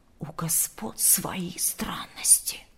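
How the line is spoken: Servants whispering. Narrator (Russian): шептались слуги

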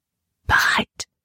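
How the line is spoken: Whispered reply. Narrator (German): flüsterte sie zurück

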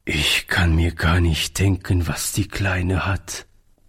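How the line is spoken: Sad. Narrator (German): sagte Oliver traurig

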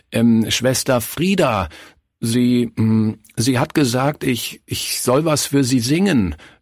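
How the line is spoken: Stammering. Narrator (German): stammelte

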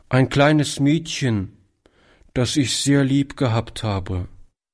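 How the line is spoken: Answering with deep sigh. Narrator (German): antwortete der Junge mit einem tiefen Seufzer

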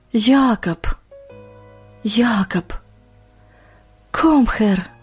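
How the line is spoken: Barely audible German whisper. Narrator (Russian): Иван чуть слышно шепча по-немецки

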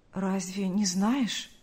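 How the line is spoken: Trembling male voice. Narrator (Russian): произнес Павел дрогнувшим голосом

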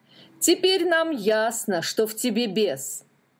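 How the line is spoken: Angry group shout. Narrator (Russian): гневно закричали они

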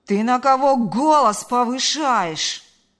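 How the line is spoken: Outraged yelling. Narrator (Russian): Заорал он в ответ, возмущенный до глубины души

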